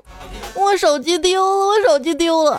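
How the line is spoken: Sobbing loudly. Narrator (Chinese): 姑娘大哭

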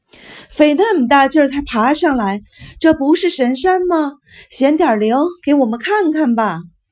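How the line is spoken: Hoarse desperate shouting, boy. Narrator (Chinese): 小个子少年声嘶力竭地叫喊着

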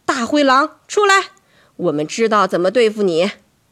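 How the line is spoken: Loud. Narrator (Chinese): 妈妈……大声说

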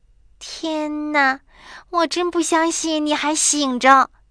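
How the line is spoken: Soft whisper. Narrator (Chinese): 黛拉小声说

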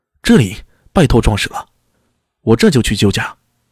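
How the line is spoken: Loud. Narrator (Chinese): 大声道

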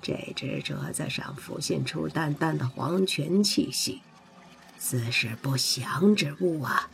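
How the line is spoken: Deep, grave voice. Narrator (Chinese): 大巫沉声说道

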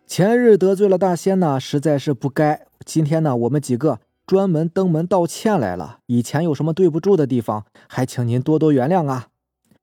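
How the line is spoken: Smiling, ingratiating. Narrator (Chinese): 周四 满脸笑容的 说道

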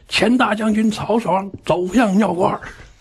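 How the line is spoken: Loud shout. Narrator (Chinese): 上面就大声喊

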